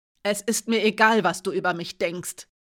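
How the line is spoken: Sharp. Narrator (German): sagte scharf

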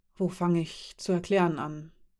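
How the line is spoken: Murmured to himself. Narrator (German): murmelte er, mehr zu sich selbst

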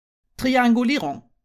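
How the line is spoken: Calling, dripping wet. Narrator (German): rief, als sie triefend nass wieder ankam

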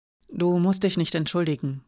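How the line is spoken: Quiet. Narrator (German): sagte Hiraya nun leise

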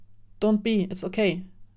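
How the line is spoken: Plain. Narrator (German): sagte Say

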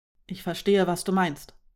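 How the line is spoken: Calm interjection. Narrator (German): warf Marim ruhig in einer Redepause ein

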